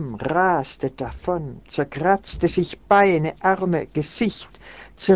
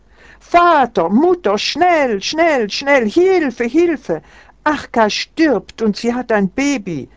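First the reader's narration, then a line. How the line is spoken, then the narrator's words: Boy screaming. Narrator (German): schrie der Junge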